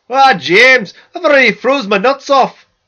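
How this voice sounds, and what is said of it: Poorly done put-on accent. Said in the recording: “I can't do accents.”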